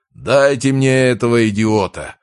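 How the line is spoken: Bellowing roar. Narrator (Russian): проревел Рязанцев

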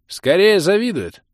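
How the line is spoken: Baronet's sarcastic, sour snort. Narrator (Russian): ядко хмыкнул баронет, не пытаясь скрывать свое испорченное заявлением Рамилы настроение

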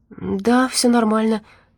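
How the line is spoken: Timid babble. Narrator (Russian): пролепетала она

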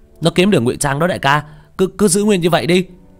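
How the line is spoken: Shouting. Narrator (Vietnamese): Thông hét lên

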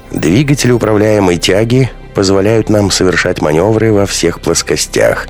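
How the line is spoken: Explaining. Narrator (Russian): объясняла Алферова участникам экспедиции

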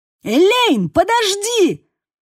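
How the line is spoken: Shouting. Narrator (Russian): кричал Бейл

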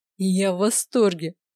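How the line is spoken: Laughing. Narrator (Russian): рассмеялся принц

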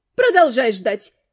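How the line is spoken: Snide mercenary's advice. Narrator (Russian): ехидно посоветовала наемница

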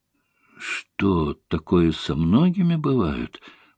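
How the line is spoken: Mumbling. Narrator (Russian): пробормотала я

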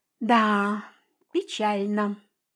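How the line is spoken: Sighed. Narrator (Russian): вздохнула подруга

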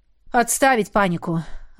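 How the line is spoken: Exhaled. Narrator (Russian): Выдохнул Идрис

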